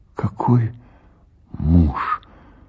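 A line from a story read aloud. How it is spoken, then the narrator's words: Whispered. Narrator (Russian): прошептала Паша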